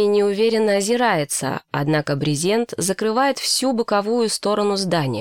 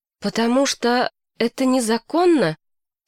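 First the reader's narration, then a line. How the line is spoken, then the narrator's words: Hoarse question. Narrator (Russian): сиплым голосом спрашивает Эми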